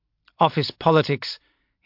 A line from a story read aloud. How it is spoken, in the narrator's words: said curtly